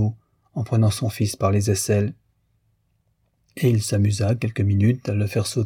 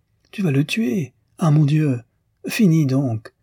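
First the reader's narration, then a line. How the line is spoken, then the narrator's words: Exclaiming. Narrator (French): s'écriait Madame Arnoux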